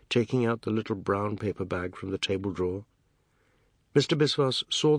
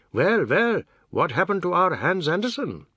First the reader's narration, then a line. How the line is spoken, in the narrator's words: Biswas saying, in his rallying voice